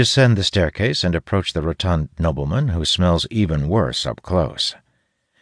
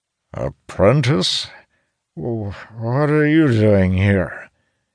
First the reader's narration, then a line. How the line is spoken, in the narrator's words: His speech is slurred